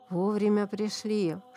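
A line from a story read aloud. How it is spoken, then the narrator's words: Whisper. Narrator (Russian): шепнула баба Маша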